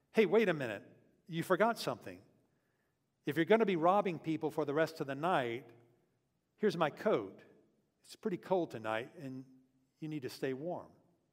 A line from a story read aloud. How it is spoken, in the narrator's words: Julio called out